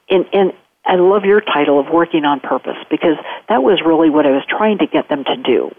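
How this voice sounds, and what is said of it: Midwestern American accent. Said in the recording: “Where's the accent from? It sounds like it's from the Midwest. ... Ohio, very good.”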